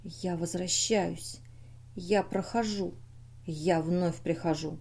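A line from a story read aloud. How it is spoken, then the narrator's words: Thoughtful whisper. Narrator (Russian): задумчиво прошептал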